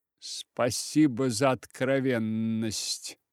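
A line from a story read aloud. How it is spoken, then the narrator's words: Older woman grumbling through teeth. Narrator (Russian): сквозь зубы проворчала старшая женщина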